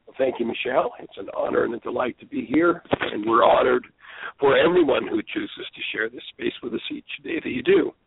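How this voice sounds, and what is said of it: Hoarse, froggy, weak voice. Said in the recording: “Pardon my throat, I've been in a healing process for the last several days, and so I'm still a little froggy ... maybe my voice just isn't going to carry for today ... My voice just is not up to par. It just is not coming through.”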